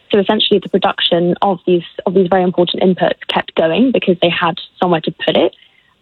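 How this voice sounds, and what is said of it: Noticeable accent. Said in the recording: “judging by your accent”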